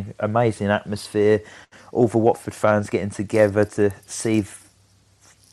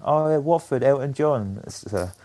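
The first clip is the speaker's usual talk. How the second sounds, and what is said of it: Badly done put-on accent. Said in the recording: “Sorry, that was a really shit accent.”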